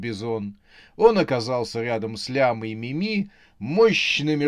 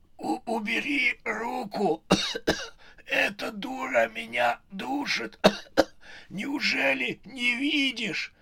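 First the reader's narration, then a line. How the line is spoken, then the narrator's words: Choked, strained coughing. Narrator (Russian): Наконец выдавил Ляма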